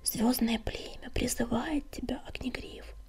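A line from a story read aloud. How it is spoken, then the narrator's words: Healer's whisper. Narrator (Russian): шепнула целительница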